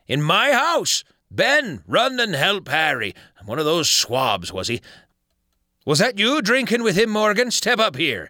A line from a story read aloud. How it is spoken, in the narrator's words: cried Silver